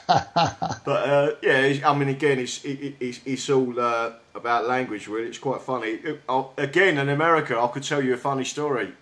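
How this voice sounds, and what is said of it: South London accent. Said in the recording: “they can understand my South London accent”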